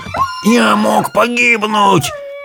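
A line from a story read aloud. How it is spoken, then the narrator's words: Hoarse, breathless wheeze. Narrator (Russian): прохрипел Джамал, когда они рухнули к ногам Светика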